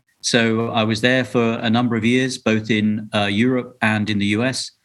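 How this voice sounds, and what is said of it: Non-American European accent. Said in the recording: “judging by my accent, I am not from around these parts. I'm not a US local. I escaped from Europe across the pond”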